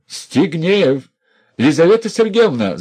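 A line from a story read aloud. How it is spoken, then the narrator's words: Shouted. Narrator (Russian): закричал он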